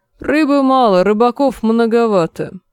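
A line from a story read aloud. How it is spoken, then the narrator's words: Gloomy curt retort. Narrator (Russian): мрачно отрезал лорд Пэсбери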